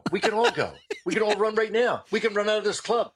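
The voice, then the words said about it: Deadpan impression of Mark Schiff. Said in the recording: “he's all deadpan ... He was so deadpan ... It was so deadpan and beautiful”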